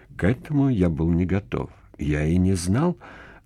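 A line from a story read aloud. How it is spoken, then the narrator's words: Mumbled. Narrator (Russian): пробормотал я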